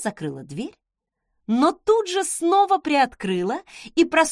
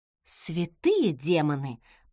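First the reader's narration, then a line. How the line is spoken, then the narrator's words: Muttering. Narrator (Russian): пробормотала я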